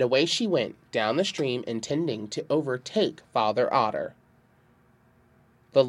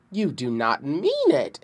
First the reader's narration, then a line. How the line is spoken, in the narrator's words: exclaimed Mother Bear, with great amazement in her tones